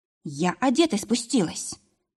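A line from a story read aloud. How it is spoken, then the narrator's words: Strained, barely audible. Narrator (Russian): выдавила едва слышно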